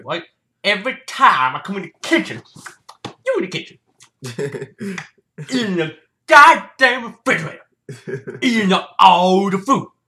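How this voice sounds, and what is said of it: Imitates another person's voice. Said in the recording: “I can do a great impression.”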